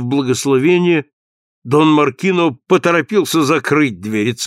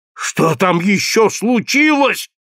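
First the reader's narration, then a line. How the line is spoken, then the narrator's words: Yell. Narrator (Russian): завопил Дон Маркино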